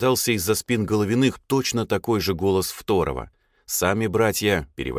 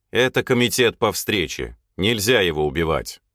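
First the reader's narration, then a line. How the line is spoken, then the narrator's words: Calm again. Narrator (Russian): Уже спокойно выговорил я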